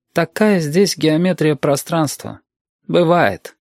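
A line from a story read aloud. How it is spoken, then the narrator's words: Calm reply. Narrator (Russian): Юрик отозвался спокойно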